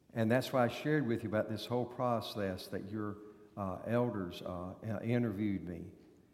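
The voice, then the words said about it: Southern US accent. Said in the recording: “He's got a southern accent. He was born in North Carolina.”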